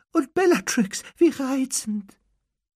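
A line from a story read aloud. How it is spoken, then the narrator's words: Squeaky voice. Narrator (German): sagte er mit quiekender Stimme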